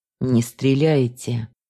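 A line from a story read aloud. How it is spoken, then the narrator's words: Hoarse drawl. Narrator (Russian): хрипло протянул знакомый голос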